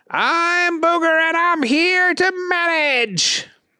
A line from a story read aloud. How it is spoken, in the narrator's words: Booger shouted